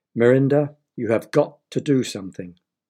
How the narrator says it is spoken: her mother said

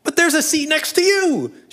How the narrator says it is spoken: she screams suddenly

